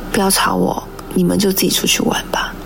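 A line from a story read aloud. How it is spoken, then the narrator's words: Very quiet. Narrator (Chinese): 他只是很小声说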